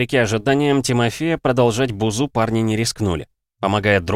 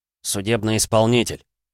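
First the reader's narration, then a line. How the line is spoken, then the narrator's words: Grumbled. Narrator (Russian): буркнул Валера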